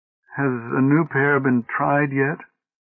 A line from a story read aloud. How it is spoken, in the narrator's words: asked Oldbury wistfully